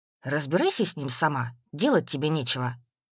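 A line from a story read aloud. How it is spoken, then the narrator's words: Grumbling. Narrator (Russian): проворчал Юрий Семенович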